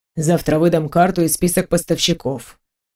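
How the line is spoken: Grumbled mutter. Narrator (Russian): пробурчал он

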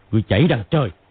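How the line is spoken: Shouting. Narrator (Vietnamese): Hoắc Đô quát

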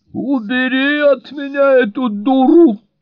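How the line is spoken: Attempted shriek. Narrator (Russian): взвизгнула Сьюзан или попыталась взвизгнуть

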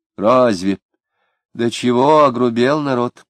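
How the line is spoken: Sighing woman. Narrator (Russian): вздохнув, сказала женщина

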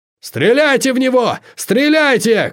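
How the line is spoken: Beast's shout. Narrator (Russian): крикнул зверь

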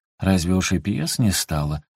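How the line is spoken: Gently reproachful question. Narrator (Russian): ласково укоризненно спрашивала она

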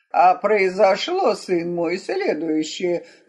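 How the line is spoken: Grim priest pronouncing. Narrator (Russian): мрачно изрек святой отец

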